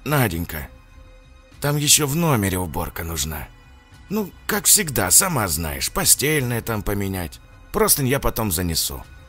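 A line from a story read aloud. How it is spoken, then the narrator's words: Quiet bald man. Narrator (Russian): тихо проговорил лысый мужчина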